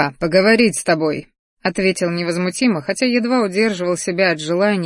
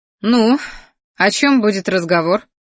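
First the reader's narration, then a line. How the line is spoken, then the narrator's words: Young woman's snort. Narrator (Russian): хмыкнула девушка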